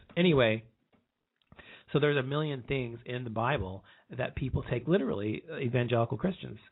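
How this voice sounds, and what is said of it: Hoarse, strained voice. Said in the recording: “My throat is sore. ... I'm hoarse for some reason. I keep losing my voice.”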